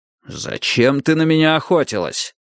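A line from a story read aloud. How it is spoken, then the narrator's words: Threatening, out of breath. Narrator (Russian): угрожающим тоном спросил, запыхавшийся Страйк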